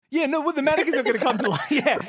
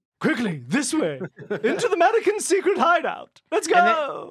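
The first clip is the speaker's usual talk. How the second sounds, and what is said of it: Imitates another person's voice. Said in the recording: “That's my Kim Cattrall impression.”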